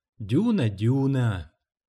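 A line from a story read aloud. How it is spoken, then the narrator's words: Gentle scolding. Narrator (Russian): мягко журила она медведя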